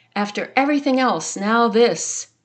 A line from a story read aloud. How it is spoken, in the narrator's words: When she fell in a creek after a hard day, she shouted